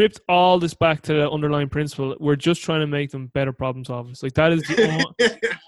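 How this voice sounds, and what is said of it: Usual voice. Nothing is said of it.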